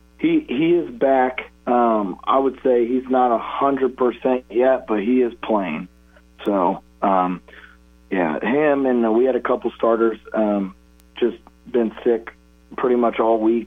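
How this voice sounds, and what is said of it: Rough, hoarse voice. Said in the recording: “your voice is a little rough this morning. I'm guessing you had a little bit of yelling and screaming last night ... My voice is not in basketball shape yet”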